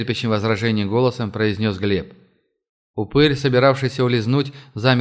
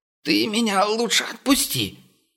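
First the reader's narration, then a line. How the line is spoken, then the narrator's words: Wheezing. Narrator (Russian): просипел он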